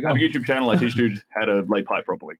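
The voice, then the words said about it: Australian accent. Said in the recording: “how do you put up with this accent all the time”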